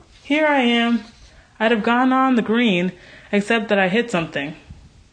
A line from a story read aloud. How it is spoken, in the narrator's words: she called cheerfully